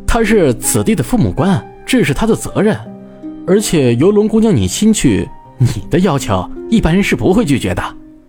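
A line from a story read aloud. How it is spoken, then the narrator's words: Slight laugh. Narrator (Chinese): 朱熹笑了一下，说道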